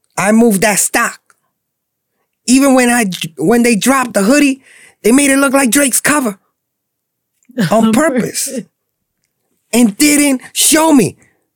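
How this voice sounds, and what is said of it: Poor imitation of another person's voice. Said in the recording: “This is the worst impression ever. ... But also the voice. The voice is off.”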